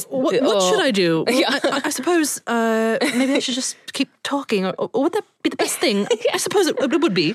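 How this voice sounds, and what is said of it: Hugh Grant impression. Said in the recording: “do a Hugh Grant impression, you have to like ask yourself a question and then answer it”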